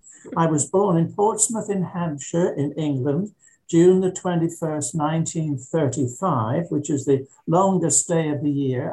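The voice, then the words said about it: English accent. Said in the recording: “my accent is genuine, in spite of the fact that you all think that I have an accent”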